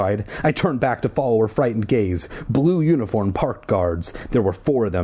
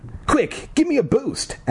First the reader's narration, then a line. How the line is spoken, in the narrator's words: Ashley cried